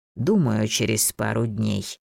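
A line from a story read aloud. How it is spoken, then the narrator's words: Thoughtful drawl. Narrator (Russian): задумчиво протянул Рарох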